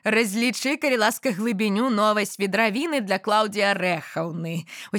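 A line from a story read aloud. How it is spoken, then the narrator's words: Smiling frog. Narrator (Belarusian): усміхнуўшыся, сказала квакша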